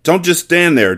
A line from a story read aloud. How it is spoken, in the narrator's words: Junior shouted